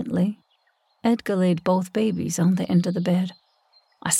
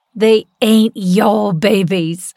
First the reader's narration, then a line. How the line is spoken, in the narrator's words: screamed so loudly